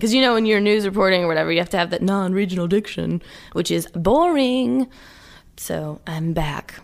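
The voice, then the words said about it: Southern American accent. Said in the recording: “In case you guys can't tell with her from her voice... is a Southern lady... I let my accent come back in full swing”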